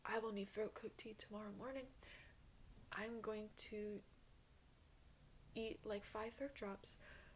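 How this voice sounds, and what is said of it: Strained, sore-throated voice. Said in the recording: “My throat is fucking killing me ... my voice is, I'm not joking. This is how my voice is starting to sound after talking that long ... I'm really trying to make my voice sound normal, but it really, really hurts ... chronic sore throat”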